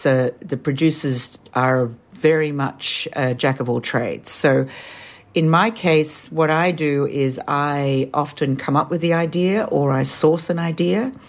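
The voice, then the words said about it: Australian accent. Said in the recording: “as you can tell from my accent, I'm Australian”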